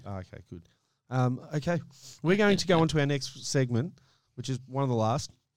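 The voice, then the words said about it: Strained, fading voice. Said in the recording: “If you can't hear, I am losing my voice at a rate of knots.”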